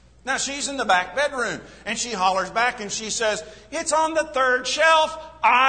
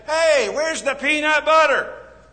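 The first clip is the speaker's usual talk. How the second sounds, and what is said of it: Loud hollering gruff male voice. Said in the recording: “I holler out in my male voice”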